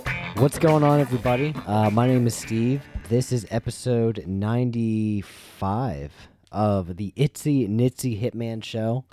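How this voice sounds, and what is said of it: Slightly rough, off voice. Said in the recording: “My voice is a little off because I'm getting over a throat thing”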